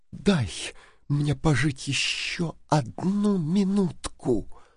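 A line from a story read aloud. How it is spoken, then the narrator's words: Whispered. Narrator (Russian): прошептала она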